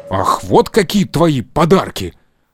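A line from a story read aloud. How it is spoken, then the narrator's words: Offended shout. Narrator (Russian): обиженно крикнул Карло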